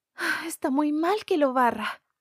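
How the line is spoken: Sighing. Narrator (Spanish): dijo Wendy suspirando

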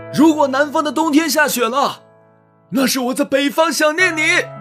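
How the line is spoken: Loud. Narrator (Chinese): 李树大声对赵小初说

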